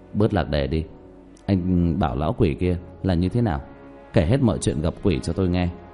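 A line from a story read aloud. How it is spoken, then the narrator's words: Disappointed sigh. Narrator (Vietnamese): Hắn vô cùng hụt hẫng thở dài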